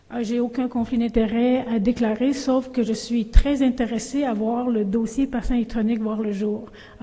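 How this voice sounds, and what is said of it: Strong Québécois accent. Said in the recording (French): “j'ai un fort accent québécois”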